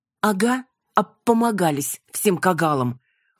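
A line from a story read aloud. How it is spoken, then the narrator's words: Snapping retort. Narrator (Russian): огрызнулась я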